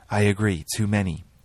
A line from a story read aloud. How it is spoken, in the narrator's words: Marjorie said